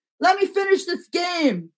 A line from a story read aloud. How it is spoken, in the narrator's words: yells back